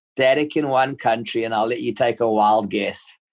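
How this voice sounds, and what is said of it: South African accent. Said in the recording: “it sounds South African to me ... You got it ... Most people say it's New Zealand”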